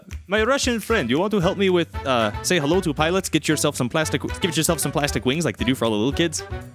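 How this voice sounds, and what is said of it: Put-on Russian accent. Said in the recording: “Why'd you spring Russian there for a moment? ... your Russian accent is very good ... accent seems more like American doing bad Russian accent”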